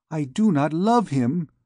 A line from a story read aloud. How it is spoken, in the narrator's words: exclaimed the unhappy child